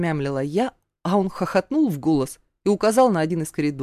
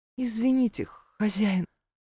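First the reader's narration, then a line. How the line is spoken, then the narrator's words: Barely audible timid whisper. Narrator (Russian): потупив взгляд, еле слышно прошептала я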